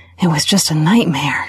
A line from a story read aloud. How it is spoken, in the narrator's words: she breathed